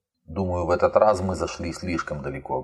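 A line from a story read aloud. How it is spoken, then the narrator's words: Plain. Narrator (Russian): говорит Канья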